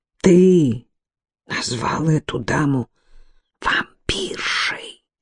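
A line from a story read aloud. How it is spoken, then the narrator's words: Whispered. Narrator (Russian): прошептал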